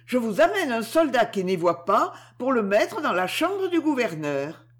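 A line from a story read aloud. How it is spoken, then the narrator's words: Shouted. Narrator (French): cria Eudoxie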